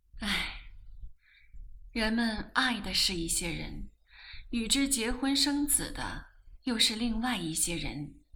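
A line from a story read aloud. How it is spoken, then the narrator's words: Long sigh. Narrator (Chinese): 黄太太长叹一口气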